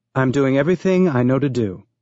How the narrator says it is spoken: Becca said, her voice astonishingly calm

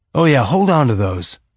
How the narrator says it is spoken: Holden said

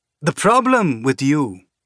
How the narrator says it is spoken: Dawes said, his voice calm and conversational as if they were sitting in a bar somewhere sharing a beer

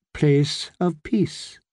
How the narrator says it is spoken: his voice was gentle

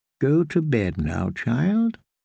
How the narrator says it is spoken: the kindly man said

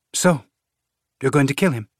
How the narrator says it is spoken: Lydia asked, her voice light

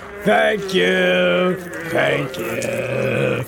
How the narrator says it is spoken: the men jeered

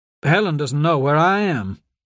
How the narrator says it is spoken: said

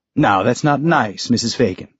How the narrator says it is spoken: Father Michel said

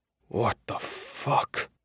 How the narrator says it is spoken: Iota whispered

